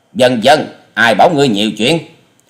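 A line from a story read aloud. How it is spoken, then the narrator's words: Loud angry shout. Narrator (Vietnamese): Hà Xà Tiên Tử giận dữ quát to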